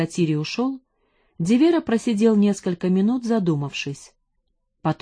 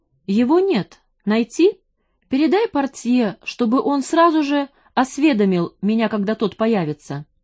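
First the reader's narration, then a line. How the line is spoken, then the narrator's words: Plain. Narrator (Russian): сказал Дивера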